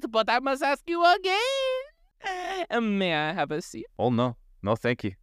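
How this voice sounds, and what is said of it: Bad stereotypical French accent. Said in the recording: “I apologize for my accent that is not very good, ... my stereotypical accent that is horrible”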